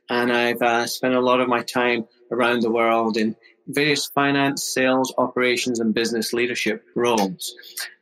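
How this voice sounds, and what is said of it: Scottish accent. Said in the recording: “you might guess from the accent, I'm originally from Scotland”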